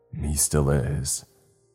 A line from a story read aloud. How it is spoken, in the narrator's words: I answered back coolly